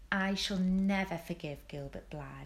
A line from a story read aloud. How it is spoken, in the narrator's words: said Anne firmly